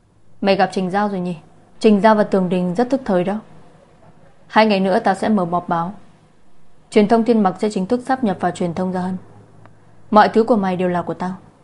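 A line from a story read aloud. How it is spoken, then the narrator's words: Calm, not angry. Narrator (Vietnamese): Lạc Gia Hân không tức giận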